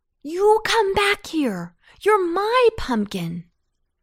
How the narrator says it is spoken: cried Antone

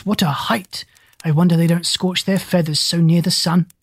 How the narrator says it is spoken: said Gub-Gub in a hushed voice

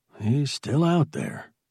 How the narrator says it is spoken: he muttered

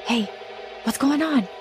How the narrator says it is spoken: I whispered

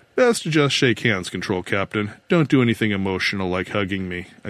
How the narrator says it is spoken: I said

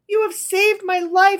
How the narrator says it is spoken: she cried

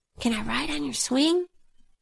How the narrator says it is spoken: Anne is mumbling something under her breath

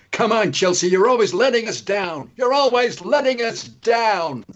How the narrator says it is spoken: a woman shouted out an American voice

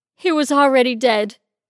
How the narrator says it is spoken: Denise said, between overly dramatic chest-heaving sobs

